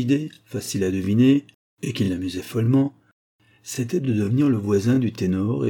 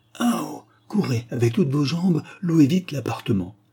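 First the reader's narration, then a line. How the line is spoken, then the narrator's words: Exclaimed. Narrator (French): s'écria Sir Wilbud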